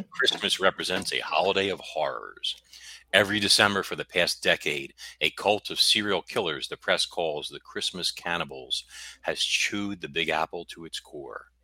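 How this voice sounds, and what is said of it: Dramatic narrator reading voice. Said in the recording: “I have to do my narrating voice.”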